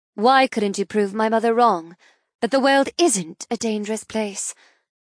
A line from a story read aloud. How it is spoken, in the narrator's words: I sigh